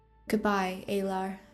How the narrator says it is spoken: she said quietly

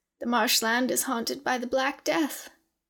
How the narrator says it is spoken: she said in a wheezing voice

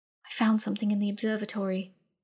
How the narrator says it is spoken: Ozarin said quietly

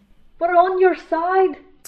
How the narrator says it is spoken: Flint shouted

